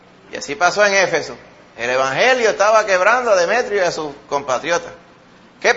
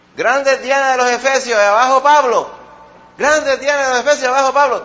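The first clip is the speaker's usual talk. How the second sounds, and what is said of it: Shouting a chant. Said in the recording (Spanish): “¿qué tú estás gritando? ... cuando yo grite, gritan todos, y estaba todo el mundo gritando”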